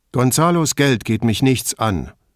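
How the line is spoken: Curt reply. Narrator (German): erwiderte schroff

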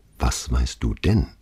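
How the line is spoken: Quiet question. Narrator (German): fragte leise

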